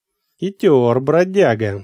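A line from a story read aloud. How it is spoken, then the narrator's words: Chuckling warrior. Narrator (Russian): воин снова хохотнул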